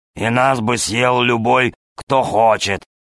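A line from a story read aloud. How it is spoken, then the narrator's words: Grumbling tiger. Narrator (Russian): проворчал тигр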